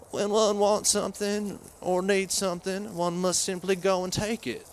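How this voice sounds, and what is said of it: Poor Bill Clinton impression, Arkansas drawl. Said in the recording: “inimitable Arkansas drawl ... That was pretty bad ... a pretty terrible Bill Clinton impression”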